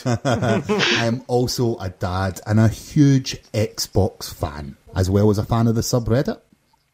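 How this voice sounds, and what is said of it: Scottish accent. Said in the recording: “I am ... from Glasgow, Scotland, as you can probably tell by my accent. Who doesn't love a Scotsman?”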